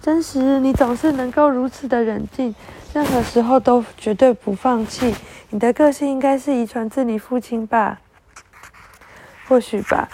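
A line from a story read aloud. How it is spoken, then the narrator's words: Smiling. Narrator (Chinese): 美西漾起了笑容说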